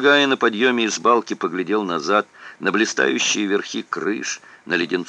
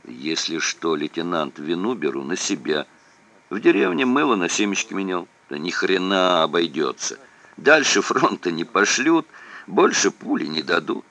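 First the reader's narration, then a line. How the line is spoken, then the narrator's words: Plain. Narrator (Russian): ответил Уханов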